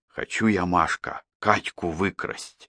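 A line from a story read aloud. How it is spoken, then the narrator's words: Whispered. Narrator (Russian): совсем уже шепотом сказал Петька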